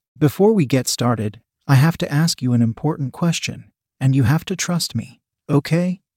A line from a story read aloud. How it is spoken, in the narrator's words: He asked calmly